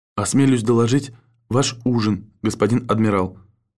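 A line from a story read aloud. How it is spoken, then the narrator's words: Barely audible steward. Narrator (Russian): едва слышно напомнил дежурный стюарт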